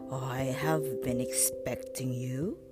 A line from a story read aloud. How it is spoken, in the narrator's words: said the octopus in a deep voice